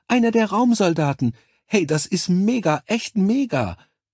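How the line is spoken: Woman calling out. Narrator (German): rief die Blondine

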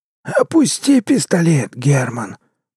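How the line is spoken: Hoarse rasp. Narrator (Russian): прохрипел Киреев

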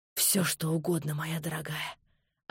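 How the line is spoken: Hoarse cooing. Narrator (Russian): осипшим голосом проворковал он

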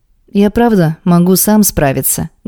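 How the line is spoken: Weary. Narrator (Russian): говорю ему, устало

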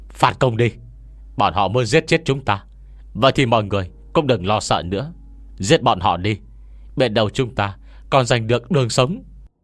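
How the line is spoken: Loud group roar. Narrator (Vietnamese): đám thủ hạ bên cạnh hắn lập tức gào ầm lên

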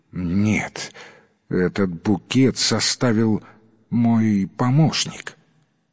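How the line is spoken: Pale, trembling voice. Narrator (Russian): Садовник побледнел и дрожащим голосом ответил

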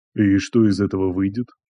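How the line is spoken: Calm question. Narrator (Russian): спокойно спросил Андрей

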